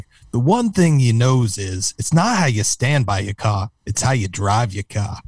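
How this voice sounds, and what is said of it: Poor Boston-accented impression. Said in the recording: “did you make him into a Boston character? ... all my impersonations are very poor? ... They're variations of Hannibal Lecter attempting a Boston accent.”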